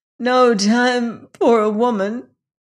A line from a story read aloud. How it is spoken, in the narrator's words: exclaimed Jane brokenly